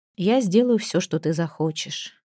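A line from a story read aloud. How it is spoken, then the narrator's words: Quiet. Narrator (Russian): тихо сказал Лейкнер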